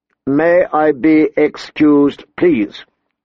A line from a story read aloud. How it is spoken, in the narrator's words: she recited stiffly